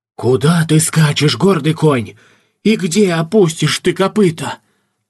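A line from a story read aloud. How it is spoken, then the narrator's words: Shuddering shout aloud. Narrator (Russian): вздрогнул и вслух прокричал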